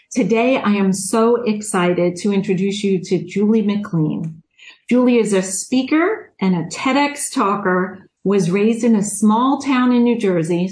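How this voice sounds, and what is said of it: Long Island New York accent. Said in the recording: “I'm from New York. I'm guessing you can hear my Long Island accent.”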